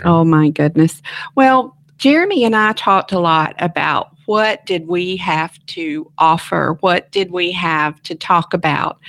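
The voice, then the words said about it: Southern twang. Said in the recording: “pretty good podcast/radio voice ... It's the Southern twang”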